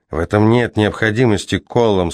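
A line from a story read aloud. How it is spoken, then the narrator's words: Plain. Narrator (Russian): сказал он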